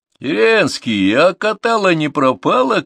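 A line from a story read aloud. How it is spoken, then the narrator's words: Shout with a laugh. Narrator (Russian): крикнул и хохотнул с крылечка районный гость, председатель охотсоюза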